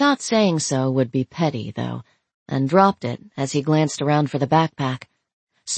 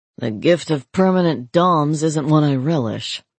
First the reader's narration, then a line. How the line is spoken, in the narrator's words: he grumbled